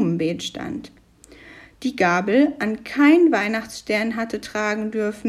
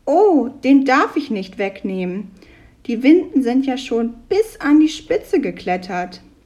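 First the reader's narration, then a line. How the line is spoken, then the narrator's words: Called out. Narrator (German): rief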